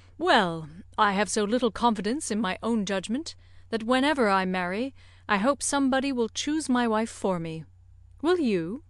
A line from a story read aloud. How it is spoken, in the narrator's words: said, in a lively tone